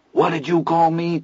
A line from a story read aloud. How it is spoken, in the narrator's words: Teddy asked hoarsely